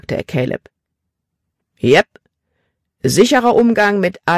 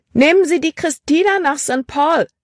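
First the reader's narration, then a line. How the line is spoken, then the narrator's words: Calling out. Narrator (German): rief sie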